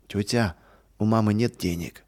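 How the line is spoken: Sad. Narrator (Russian): печально сказал

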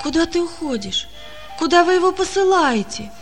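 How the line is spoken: Frightened question. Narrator (Russian): спросила она испуганно

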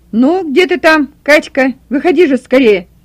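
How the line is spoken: Impatient shout. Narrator (Russian): кричал от нетерпения Николай Васильевич

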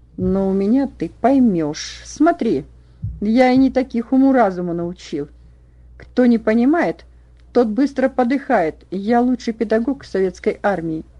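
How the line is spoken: Menacing hiss, close up. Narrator (Russian): прошипел Иванов Ване в лицо

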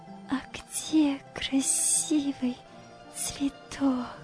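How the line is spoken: Smiling whisper. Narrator (Russian): прошептала, улыбаясь

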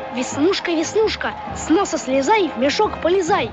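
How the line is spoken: Boy's drowned-out whisper. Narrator (Russian): Шепота мальчика никто не слышал из-за громовых криков

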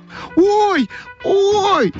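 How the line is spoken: Shouting. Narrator (Russian): закричала Ойка

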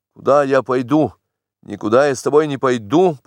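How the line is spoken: Hasty defiant shout. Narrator (Russian): поспешил я крикнуть с вызовом

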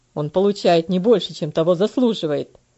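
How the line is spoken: Angry husband. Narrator (Russian): Сердито ответил ее муж

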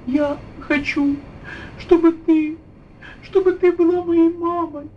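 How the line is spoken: Tearful confession. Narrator (Russian): призналась ей Анечка сквозь слезы

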